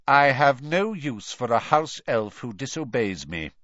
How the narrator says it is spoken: he said coldly

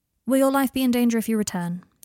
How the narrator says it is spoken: he said, in a monotone, as if he were reading from a government questionnaire

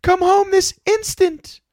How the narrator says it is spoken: cried his sister

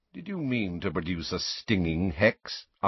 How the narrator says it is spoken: asked Snape coolly

